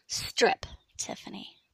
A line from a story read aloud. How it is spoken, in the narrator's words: said sharply